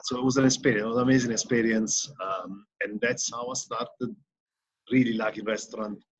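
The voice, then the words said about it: Strong foreign accent in English. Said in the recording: “my accent is very strong, as you can hear.”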